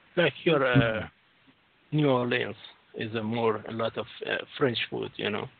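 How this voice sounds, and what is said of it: Strong foreign accent. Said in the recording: “your accent no, no. is so strong”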